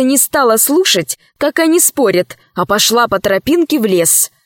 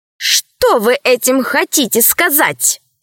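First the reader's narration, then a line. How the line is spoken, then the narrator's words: Angry question. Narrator (Russian): сердито спросила рабыня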